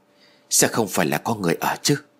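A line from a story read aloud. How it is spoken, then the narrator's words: Quiet question. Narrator (Vietnamese): Tôi liền nhỏ giọng hỏi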